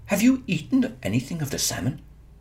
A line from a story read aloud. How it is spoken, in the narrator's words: he asked Fionn anxiously